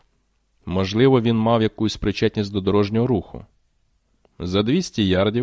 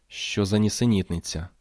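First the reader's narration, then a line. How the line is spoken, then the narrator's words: Mutter. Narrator (Ukrainian): бурмотіла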